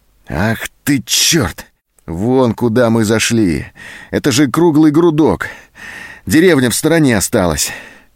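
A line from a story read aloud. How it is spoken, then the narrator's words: Disappointed exhale. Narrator (Russian): Зоська разочарованно выдохнула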